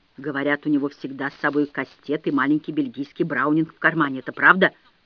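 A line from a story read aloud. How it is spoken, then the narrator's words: Conspiratorial whisper. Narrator (Russian): Вероника шепнула мне заговорщически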